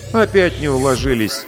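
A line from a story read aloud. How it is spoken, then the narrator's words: Grumbling. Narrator (Russian): ворчала Галина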